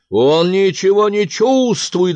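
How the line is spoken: Troll shouting. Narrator (Russian): закричал тролль

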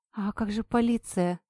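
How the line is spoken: Timid. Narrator (Russian): робко сказала я

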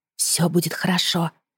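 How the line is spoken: Whisper. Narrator (Russian): прошептала

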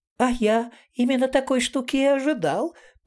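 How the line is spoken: Squeaky. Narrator (Russian): пропищал Етуркин Джансерхив

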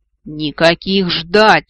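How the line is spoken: Roaring. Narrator (Russian): взревел правитель

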